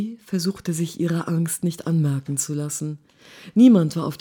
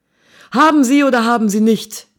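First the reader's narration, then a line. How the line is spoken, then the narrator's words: Barking soldier. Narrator (German): bellte der Soldat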